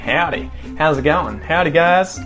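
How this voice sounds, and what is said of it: Jokey put-on American accent. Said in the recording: “a little humorous ... sort of putting on that American accent a little bit, but not in a nasty way”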